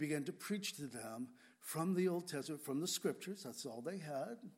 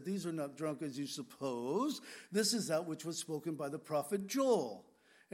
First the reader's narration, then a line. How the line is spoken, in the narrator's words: Peter corrected the mocking and said